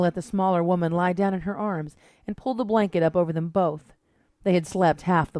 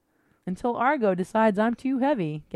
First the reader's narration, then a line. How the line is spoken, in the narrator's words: Gabrielle laughed